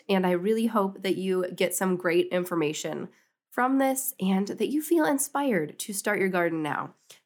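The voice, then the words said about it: Sick, under-the-weather voice. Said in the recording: “sorry for my voice. I am a little bit under the weather.”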